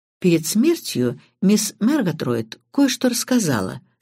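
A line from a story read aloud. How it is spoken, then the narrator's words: Calm. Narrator (Russian): спокойно ответил Крадок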